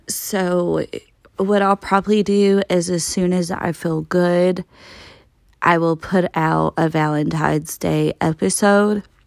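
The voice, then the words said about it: Congested, out of breath voice. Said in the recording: “sounding like this with my nose running off of my face... I'm so out of breath”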